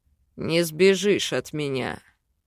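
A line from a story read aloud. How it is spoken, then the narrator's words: Seductive male growl. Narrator (Russian): Сексуально рычал мужчина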